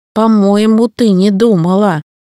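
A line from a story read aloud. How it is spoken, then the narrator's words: Grumbling, groaning. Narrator (Russian): заворчал он, с кряхтением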